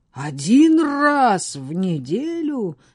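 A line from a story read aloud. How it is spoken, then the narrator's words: Roared, giant. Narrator (Russian): взревел гигант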